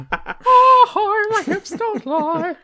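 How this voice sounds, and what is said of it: Monty Python-style sung pop-star impression. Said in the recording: “that was like a weird Monty Python version of Hips Don't Lie... perfect... Shakira... Flawless Shakira... that was an impression. That was my impression of friend of the show Jim doing an impression of Shakira”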